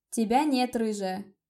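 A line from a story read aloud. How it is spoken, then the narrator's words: Shrill high-pitched reply. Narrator (Russian): ответил он, выбирая самые противные высокие ноты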